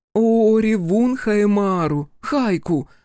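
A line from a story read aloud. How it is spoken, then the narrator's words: Howling woman. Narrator (Russian): взвыла Игураси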